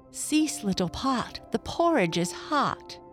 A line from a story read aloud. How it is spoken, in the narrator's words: she cried